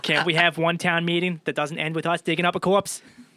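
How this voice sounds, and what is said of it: Mayor Quimby impression. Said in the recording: “you started to sound like Mayor Quigby ... There goes your impression”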